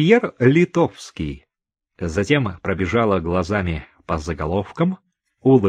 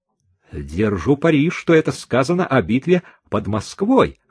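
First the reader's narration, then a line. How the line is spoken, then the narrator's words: Exclaiming. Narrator (Russian): воскликнул Чика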